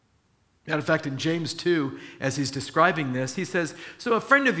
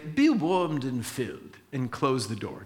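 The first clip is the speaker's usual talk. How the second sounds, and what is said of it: Put-on English accent. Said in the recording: “that English accent”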